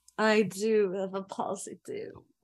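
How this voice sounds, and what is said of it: Sensual mixed French-British put-on accent. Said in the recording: “Why'd you drop the accent? ... There was like three different ones. ... French ... sensual. ... Mixed with it, British.”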